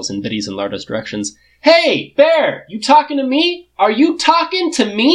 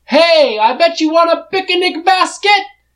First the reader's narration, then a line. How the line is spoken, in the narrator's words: Shitty shouts immediately